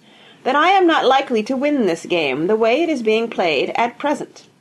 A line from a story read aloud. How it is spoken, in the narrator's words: Grandma told him in her clear, ringing tones